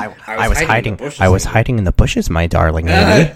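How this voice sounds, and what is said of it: Put-on character voice. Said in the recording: “Our listeners love when I do this voice. ... Ben is in my brain.”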